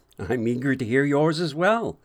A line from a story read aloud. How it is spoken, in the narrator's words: William said